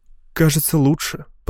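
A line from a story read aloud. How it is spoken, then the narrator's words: Mumbling. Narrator (Russian): пробормотала Матилд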